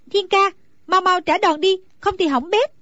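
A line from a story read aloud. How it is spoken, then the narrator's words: Anxious shouting. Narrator (Vietnamese): Nàng càng theo dõi càng thấy hồi hộp lo lắng, bèn la lên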